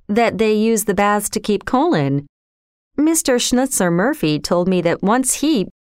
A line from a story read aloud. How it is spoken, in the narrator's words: ventured John with a forced laugh